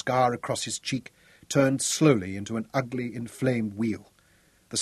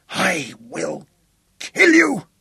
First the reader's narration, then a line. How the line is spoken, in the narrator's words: His voice rose to a bellow